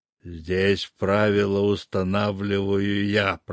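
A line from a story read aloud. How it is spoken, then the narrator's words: Growled. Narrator (Russian): прорычал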